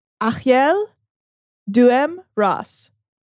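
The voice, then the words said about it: Attempted Persian accent on name. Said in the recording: “I'm going to try it with a Persian accent. I probably won't get it right.”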